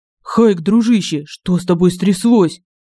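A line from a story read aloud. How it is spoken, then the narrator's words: Frightened question. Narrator (Russian): Испуганно спросил Семен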